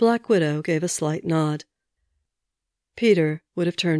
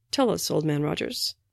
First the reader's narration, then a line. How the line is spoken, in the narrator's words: Stark murmured, not even pretending to be interested